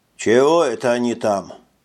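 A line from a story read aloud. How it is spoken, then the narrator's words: Sigh. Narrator (Russian): Робби … вздохнул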